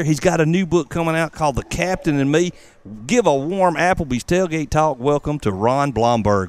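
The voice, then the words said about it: Southern American accent. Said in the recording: “I love your southern accent like mine.”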